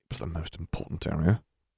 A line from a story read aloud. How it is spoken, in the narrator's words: Harry muttered